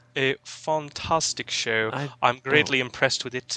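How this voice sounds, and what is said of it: Bad put-on British accent. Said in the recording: “I'm talking in a horrible British accent.”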